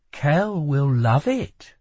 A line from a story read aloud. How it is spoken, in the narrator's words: assured Lila, and the way she said his name, infusing it with a subtle softness and intimacy